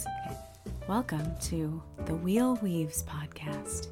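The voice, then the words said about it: NPR radio announcer voice. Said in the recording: “do it in my NPR voice”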